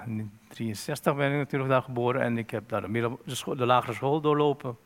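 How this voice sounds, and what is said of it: Surinamese Dutch accent. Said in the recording (Dutch): “dan zou ik wel denken dat je Surinaams bent aan hoe je praat ... accent”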